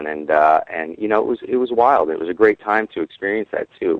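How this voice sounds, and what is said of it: Slight New York-sounding accent. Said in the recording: “I hear some sort of an accent and I can't finger it... I was going to say New York... the New York comes from liking hip hop for too many years”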